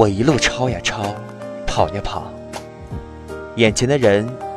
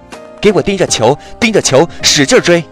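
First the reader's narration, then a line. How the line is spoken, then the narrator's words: Roaring from behind. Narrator (Chinese): 文武兵身后的咆哮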